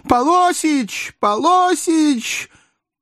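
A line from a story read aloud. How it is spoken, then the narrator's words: Anguished loud shout. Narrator (Russian): Совершенно пожелтев, продавщица тоскливо прокричала на весь магазин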